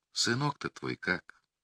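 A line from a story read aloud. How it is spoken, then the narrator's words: Sighing, concerned. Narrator (Russian): Мария Климовна вздохнула и молвила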